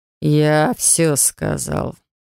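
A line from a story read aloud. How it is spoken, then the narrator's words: Through gritted teeth. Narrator (Russian): процедил сквозь зубы глава рода Теор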